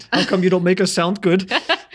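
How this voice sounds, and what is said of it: Mock German accent. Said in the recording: “the German accent”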